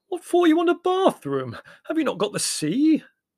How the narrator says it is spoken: he wailed in genuine anguish

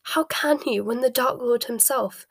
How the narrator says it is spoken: Bellatrix gasped

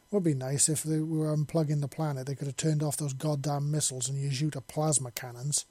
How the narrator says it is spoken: Pegasus said in his gruff voice

